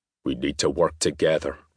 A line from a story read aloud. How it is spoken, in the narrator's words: Rory said, his voice a low grumble